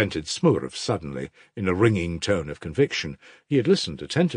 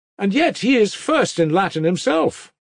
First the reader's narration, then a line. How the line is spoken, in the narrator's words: cried one of the group of boys suddenly